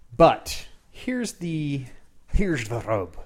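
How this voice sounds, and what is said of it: Slightly off Irish pirate accent. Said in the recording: “He was an Irish pirate. ... Your accent's slightly ... off.”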